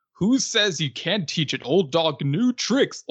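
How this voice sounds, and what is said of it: Goofy cartoon voice impression. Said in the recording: “Goofy being like ... I don't know if my impression sounded any good”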